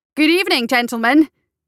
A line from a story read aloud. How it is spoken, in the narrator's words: cried loudly